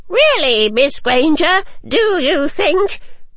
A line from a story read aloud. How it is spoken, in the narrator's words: in a squeak so loud that my ears caught on fire